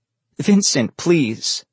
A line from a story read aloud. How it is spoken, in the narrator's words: Lake cried